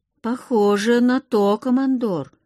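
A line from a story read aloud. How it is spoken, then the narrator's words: Gloomy, through teeth. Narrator (Russian): мрачно процедил Майки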